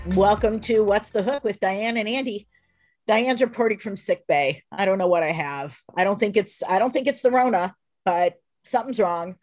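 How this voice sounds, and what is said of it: Sick, funny-sounding voice. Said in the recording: “why my voice sounds funny”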